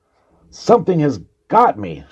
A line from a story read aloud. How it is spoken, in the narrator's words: she screamed